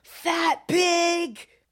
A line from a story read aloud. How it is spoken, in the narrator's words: He screams at me